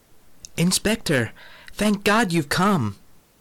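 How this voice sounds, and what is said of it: Hint of an exotic accent. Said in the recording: “I caught a hint of some exotic accent.”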